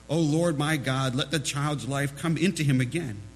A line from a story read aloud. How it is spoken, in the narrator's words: cried unto the Lord